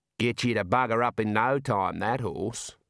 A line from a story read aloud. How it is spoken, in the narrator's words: he said